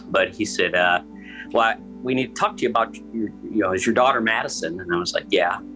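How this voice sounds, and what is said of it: Choked-up, emotional voice. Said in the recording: “getting a little choked up”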